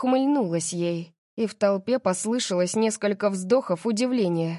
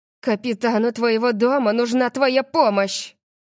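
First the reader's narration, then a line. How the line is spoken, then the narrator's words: Growling. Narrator (Russian): прорычала она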